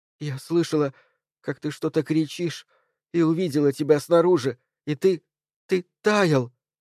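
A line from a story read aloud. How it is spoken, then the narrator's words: Sobbing. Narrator (Russian): всхлипнула Джейн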